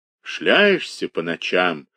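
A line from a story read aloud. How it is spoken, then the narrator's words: Grumbling old believer. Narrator (Russian): ворчал хозяин-старовер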